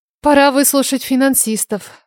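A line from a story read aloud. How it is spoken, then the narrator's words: Female sigh. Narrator (Russian): вздохнула я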